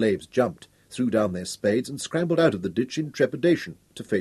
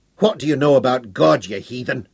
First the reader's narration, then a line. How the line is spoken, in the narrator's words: he roared